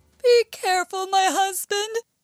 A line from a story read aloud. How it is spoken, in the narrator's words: shouted the giantess from the castle